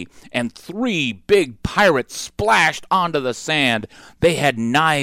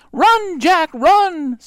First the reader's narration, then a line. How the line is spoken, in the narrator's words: cried Annie